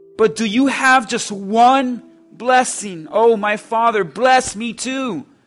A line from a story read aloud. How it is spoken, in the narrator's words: Esau pleaded